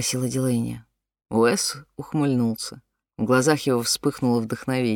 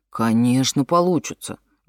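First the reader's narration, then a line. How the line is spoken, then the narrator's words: Exclaiming. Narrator (Russian): воскликнул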